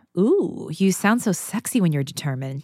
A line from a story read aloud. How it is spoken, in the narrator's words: she purred